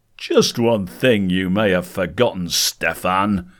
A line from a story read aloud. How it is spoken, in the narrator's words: Fanshawe shouted above the roar of the storm outside